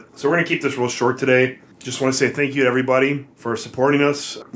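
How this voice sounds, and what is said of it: Hoarse, strained, losing voice. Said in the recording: “I'm suffering from some illness ... We're both having problems with our throat ... it's getting harder and harder to talk. I feel like I'm losing my voice a little bit”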